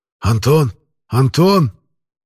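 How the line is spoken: Grown man sobbing. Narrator (Russian): Взрослый, битый жизнью мужчина … натурально разрыдался у меня на плече

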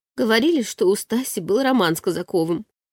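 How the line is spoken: Quiet confession. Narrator (Russian): тихо призналась Светка

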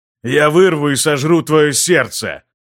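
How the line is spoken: Roaring. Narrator (Russian): взревел он

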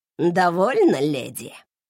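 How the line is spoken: Spiteful hiss, man. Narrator (Russian): злобно сцедил мужик

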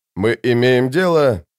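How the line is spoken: Grumbling. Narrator (Russian): проворчал инстигатор

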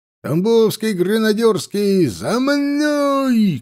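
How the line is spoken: Shouted command, captain. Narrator (Russian): крикнул капитан

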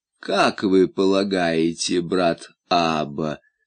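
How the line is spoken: Calm inquiry. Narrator (Russian): спокойно осведомился Дон Рэба

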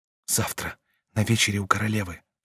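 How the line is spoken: Whisper. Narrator (Russian): шепнула она ему

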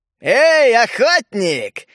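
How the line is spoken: Sarcastic shout, old man. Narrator (Russian): язвительно выкрикнул патриарх

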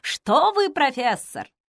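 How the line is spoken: Flirtatious tone. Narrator (Russian): кокетливым тоном

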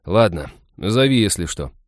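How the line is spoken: Hurt grumbling, young man. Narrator (Russian): уязвленно проворчал парень

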